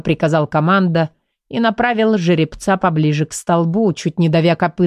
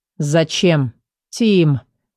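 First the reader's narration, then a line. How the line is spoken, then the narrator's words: Groan. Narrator (Russian): простонал Эдер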